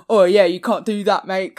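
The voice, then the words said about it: Poor put-on Cockney accent. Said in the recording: “That was a pretty bad accent... anyone who speaks like Jason Statham... if you're Cockney”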